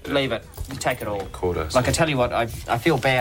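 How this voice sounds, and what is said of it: New Zealand accent. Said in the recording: “Which accent is this? ... It is New Zealand.”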